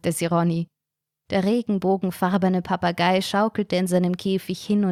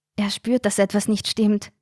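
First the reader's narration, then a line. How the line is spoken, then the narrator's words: Whisper. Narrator (German): flüsterte Carina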